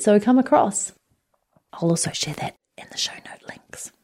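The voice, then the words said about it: Whispering. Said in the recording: “I don't know why I'm whispering, but it feels more exciting.”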